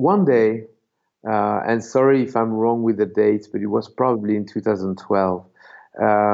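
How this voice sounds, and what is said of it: Usual voice. Nothing is said of it.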